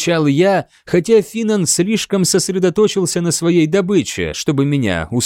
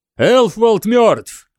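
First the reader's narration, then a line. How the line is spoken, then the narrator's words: Shouting. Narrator (Russian): крикнул Финан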